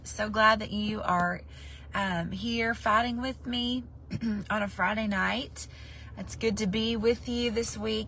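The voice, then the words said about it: Rough, raspy voice. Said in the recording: “every time I'm on late, my voice is so raunchy”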